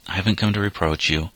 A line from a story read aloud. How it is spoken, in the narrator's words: went on gently